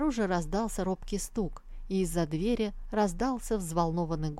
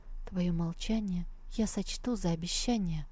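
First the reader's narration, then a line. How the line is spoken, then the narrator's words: Whisper. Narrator (Russian): девушка проговорила шепотом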